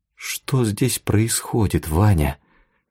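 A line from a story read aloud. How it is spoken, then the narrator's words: Trembling. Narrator (Russian): дрожащим голосом спросила Тая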